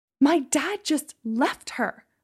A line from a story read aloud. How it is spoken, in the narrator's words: I shouted